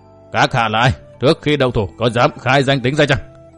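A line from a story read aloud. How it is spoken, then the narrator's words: Old demon's harsh question. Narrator (Vietnamese): một lão đại ma đầu gằn giọng hỏi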